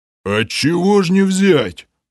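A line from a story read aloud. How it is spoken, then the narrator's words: Deep rumbling voice. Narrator (Russian): прогудел Грим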